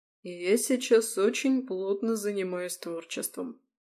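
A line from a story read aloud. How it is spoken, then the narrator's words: Flat, cold voice. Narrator (Russian): проговорил он своим рыбьим голосом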